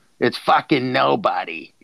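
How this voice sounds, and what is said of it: Put-on Boston accent. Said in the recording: “That Boston accent.”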